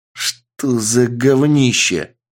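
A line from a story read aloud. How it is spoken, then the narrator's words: Growling. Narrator (Russian): прорычал босс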